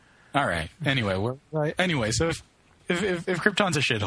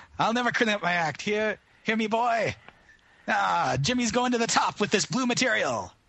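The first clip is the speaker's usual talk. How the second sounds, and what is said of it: Put-on vaudeville comedian accent. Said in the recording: “I'm not really a good 1920s Jewish comedian ... take off the vaudeville accent”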